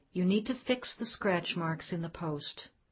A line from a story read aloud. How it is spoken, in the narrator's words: calmly saying